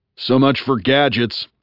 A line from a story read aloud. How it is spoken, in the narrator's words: said Bunny, having to lean toward me and yell